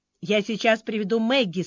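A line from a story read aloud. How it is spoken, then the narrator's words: Plain. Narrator (Russian): сказал Джозеф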